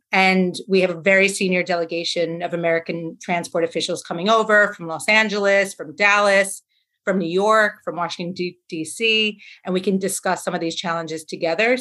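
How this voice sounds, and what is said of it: American accent. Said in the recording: “you can hear from my accent that I'm American”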